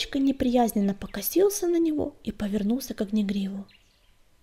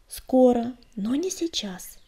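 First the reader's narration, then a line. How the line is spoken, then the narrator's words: Gentle restrained objection. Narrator (Russian): мягко возразил Огнегриф, стараясь оставаться спокойным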